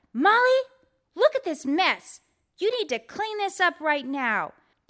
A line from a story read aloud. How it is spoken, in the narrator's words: When Molly's mother saw this, she yelled